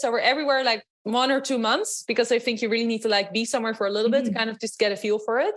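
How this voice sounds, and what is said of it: Dutch accent. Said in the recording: “You might hear from my accent. I'm actually from Holland.”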